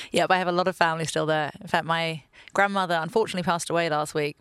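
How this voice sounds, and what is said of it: English accent. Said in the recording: “I have a very confusing accent ... I was pretty sure you had an English accent”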